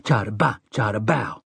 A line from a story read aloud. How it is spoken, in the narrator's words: under his breath